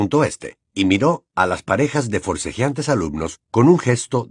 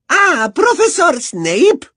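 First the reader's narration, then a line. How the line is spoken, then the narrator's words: Beaming exclamation. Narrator (Spanish): exclamó la profesora Umbridge, sonriendo de oreja a oreja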